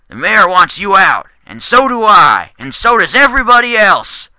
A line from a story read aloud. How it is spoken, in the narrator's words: the barkeep yelled